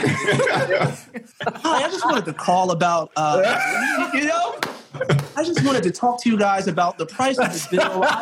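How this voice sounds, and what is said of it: Polite telephone voice. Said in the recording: “did you just pull out the telephone voice? ... You have the phone voice.”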